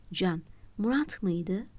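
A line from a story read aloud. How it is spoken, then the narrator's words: Muttered. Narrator (Turkish): diye mırıldandı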